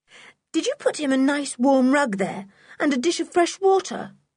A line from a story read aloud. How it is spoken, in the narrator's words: asked George anxiously for the third or fourth time